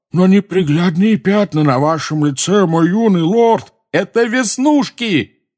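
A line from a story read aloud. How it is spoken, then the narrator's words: Yelled. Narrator (Russian): заорал Рон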